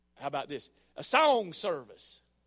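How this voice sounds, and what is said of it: Put-on Southern US accent. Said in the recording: “I'm from down south again, aren't I? ... You always go into that accent.”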